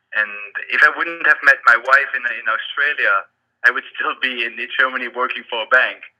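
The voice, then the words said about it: German accent. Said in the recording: “as you can tell by my accent, um, I grew up in uh, in, in, Germany”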